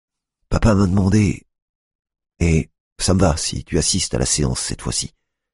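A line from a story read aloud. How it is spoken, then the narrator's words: Plain. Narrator (French): dit Hugo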